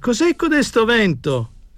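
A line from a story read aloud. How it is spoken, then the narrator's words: Shouting. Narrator (Italian): gridava Tommasini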